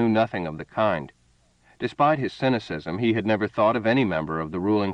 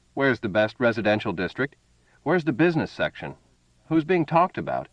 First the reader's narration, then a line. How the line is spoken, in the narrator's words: laughed